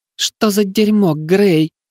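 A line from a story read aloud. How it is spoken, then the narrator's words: Moaned. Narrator (Russian): простонала Тара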